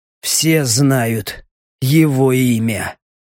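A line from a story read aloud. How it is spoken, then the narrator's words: Hoarse wheeze. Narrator (Russian): прохрипел Леха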